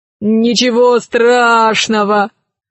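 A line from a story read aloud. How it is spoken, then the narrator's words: Laughing. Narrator (Russian): рассмеялся Милодар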